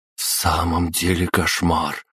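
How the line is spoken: Through gritted teeth. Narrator (Russian): сквозь зубы процедила Маша

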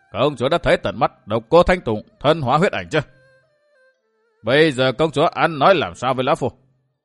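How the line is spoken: Strange eerie laugh. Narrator (Vietnamese): Vạn Cực Đế Quân bật cười quái dị

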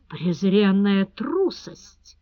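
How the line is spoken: Hissing through teeth. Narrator (Russian): сквозь зубы прошипел маклер Гош

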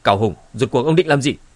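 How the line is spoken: Startled angry shout. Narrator (Vietnamese): Hồng Ma cũng hoàng hồn, lập tức tức giận quát

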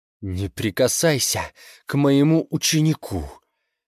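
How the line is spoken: Blurted through clenched teeth. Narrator (Russian): сквозь зубы выпалила она

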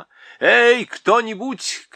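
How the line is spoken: Shouting king. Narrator (Russian): крикнул король

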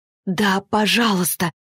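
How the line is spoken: Moaning. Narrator (Russian): простонала Арина

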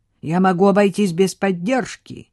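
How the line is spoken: Barking, suppressing laughter. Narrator (Russian): рявкнул Хьюго, давя в себе смех

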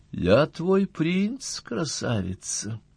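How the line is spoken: Soft, quiet voice. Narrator (Russian): тихонько сказал он

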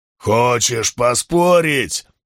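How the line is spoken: Roaring broad-chested man. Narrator (Russian): проревел широкогрудый гал

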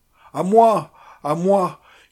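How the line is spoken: Yelling. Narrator (French): hurlait-il

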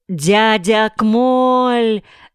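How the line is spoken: Shout. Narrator (Russian): закричал Ринтен

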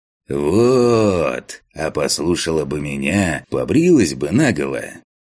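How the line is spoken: Didactic recitation. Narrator (Russian): назидательным голосом продекламировал Фантик

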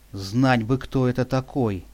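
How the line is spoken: Sighing. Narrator (Russian): вздохнула Патрушева

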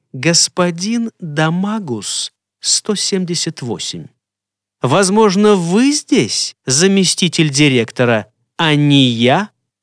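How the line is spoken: Calm, affected delivery. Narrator (Russian): как спокойно она произнесла эту наигранную фразу

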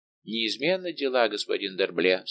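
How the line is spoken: Plain. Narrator (Russian): сказал он

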